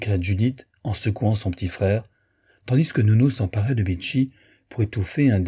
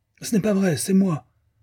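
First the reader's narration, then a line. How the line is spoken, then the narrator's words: Defiant yelp. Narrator (French): glapit Bun … d'un air de défi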